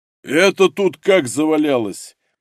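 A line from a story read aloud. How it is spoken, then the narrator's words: Deep bass question. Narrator (Russian): густым басом поинтересовался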